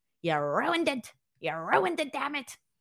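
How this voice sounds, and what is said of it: Imitates another person's voice. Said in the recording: “my best Vince McMahon impression.”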